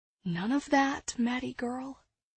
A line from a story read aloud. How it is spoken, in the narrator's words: I whispered to myself